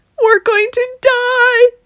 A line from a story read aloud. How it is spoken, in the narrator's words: they shrieked